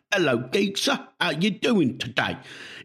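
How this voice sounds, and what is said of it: Deliberately bad put-on Cockney accent. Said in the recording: “he's like, oh, yeah, I'm going to do a Cockney accent ... It's the worst thing I've ever heard”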